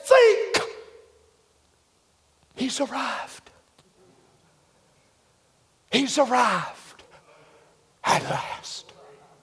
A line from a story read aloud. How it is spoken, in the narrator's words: hollered at the other one and said